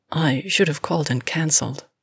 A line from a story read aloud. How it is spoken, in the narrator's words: she said quietly